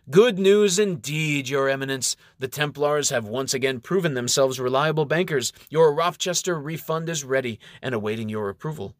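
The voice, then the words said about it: Charming, smooth character voice. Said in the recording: “in his most charming voice”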